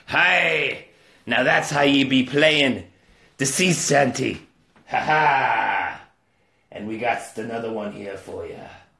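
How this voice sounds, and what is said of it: Put-on pirate voice. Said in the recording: “it be International Talk Like a Pirate Day.”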